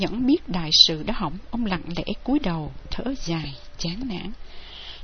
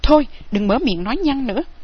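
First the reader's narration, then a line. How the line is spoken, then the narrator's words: Loud shout. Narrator (Vietnamese): Dương Tiêu quát lớn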